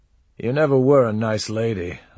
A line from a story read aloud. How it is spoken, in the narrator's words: I said, but it came feebly and got said to her departing back